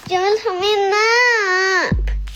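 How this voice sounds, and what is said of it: Child's voice screaming. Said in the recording (Swedish): “Skriker hon ut i mörkret ... Fortsätter hon att vråla.”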